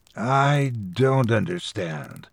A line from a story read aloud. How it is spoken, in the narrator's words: I said, my voice low and hoarse